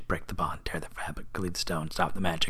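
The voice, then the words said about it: Whispered chant. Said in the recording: “whispering spell”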